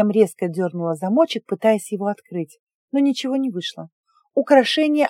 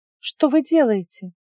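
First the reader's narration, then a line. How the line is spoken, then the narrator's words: Guest's astonished question. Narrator (Russian): изумилась гостья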